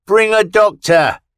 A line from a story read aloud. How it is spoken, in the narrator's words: he shouted